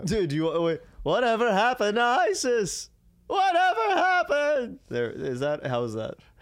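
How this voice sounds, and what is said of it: Jerry Seinfeld impression. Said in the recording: “I wish I could do a good Seinfeld impression. ... I've heard you do better.”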